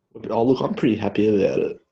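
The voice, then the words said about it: Sarcastic delivery. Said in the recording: “It was sarcasm”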